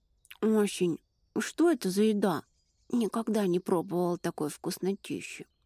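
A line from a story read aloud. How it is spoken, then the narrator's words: Mumbling, mouth full. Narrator (Russian): пробормотала девушка с набитым ртом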